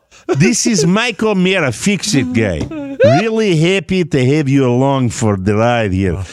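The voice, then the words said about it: Put-on Eastern European accent. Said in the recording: “accent ... what accent would you like? ... Eastern European”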